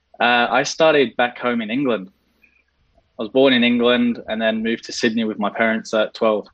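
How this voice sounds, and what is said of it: Slight English accent. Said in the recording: “I think we can still detect a hint of the accent... Yeah, it's still there a little bit, but it's starting to go.”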